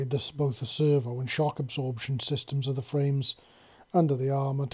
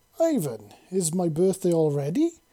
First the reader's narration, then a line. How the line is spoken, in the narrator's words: Sasha chuckled